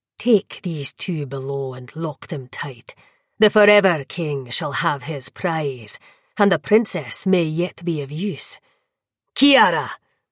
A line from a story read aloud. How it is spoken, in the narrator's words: he murmured